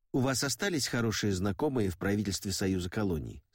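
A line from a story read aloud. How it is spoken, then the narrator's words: Plain. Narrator (Russian): спросил я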